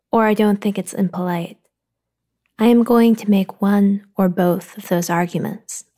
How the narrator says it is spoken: I said

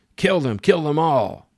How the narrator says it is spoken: An officer screamed orders

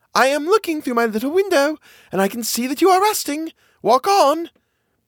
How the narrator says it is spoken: someone immediately called out

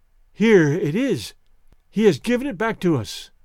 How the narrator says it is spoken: Her voice trembled as she said

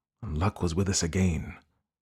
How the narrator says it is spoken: he muttered

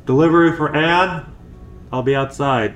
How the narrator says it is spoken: I hesitated on the threshold, before just shouting

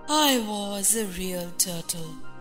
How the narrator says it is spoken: said the Mock Turtle at last, with a deep sigh

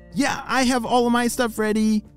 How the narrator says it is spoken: shouted Lucy

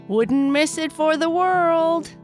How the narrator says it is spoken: Kai Kai yelled as he flew up into the sky

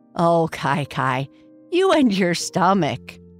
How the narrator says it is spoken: Boo Boo giggled

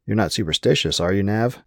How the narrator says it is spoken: said in a joking tone

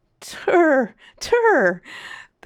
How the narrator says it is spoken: the captain laughed exhaustedly

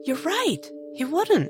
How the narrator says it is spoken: Chrysanthemum began, and then gasped

